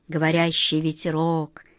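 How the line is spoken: Muttering wizard. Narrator (Russian): пробормотал волшебник Алеша

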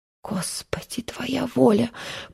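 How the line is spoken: Whisper. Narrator (Russian): прошептала она

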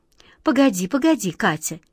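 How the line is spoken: Gentle, soothing. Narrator (Russian): мягко остановил ее волшебник Алеша

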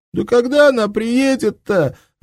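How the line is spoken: Sobbing shout. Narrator (Russian): рыдающе закричал Дуська

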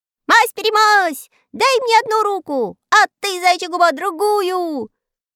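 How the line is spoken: Shouting. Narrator (Russian): кричал Знайка

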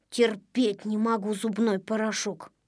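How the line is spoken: Grumbling. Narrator (Russian): проворчал Незнайка

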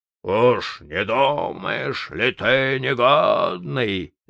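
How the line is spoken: Growling water spirit. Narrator (Russian): зарычал водяной

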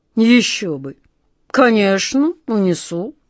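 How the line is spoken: Grumbling. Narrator (Russian): проворчал король

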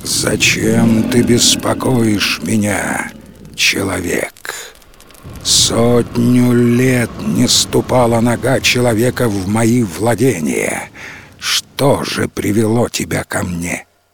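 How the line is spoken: Majestic booming voice. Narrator (Russian): Владыка леса спросил величественным голосом, от которого задрожали листья на деревьях

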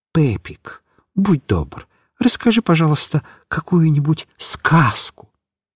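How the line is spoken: Whisper in ear. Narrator (Russian): Микиш шепнул мальчику на ухо

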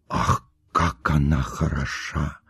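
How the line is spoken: Whispering among guests. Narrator (Russian): говорили шепотом кавалер кавалеру и дама даме

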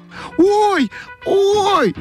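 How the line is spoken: Shouted. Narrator (Russian): закричала Ойка

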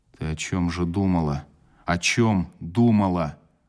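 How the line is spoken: Through gritted teeth. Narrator (Russian): сквозь зубы сказал я фельдшеру

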